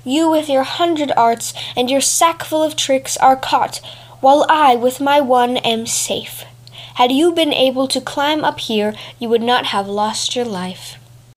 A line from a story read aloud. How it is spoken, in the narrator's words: cried the cat